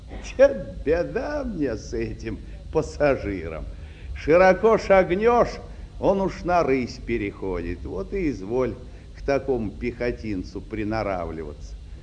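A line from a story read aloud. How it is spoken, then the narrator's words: Tired father. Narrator (Russian): устало присаживаясь со мной рядом, отец сказал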